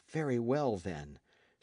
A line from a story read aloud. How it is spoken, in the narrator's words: said Michel Ardan quietly